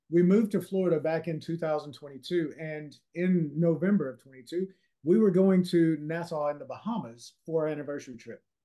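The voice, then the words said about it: Louisiana accent. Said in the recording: “if you can't tell that I'm from Louisiana with the accent, I'm from Louisiana”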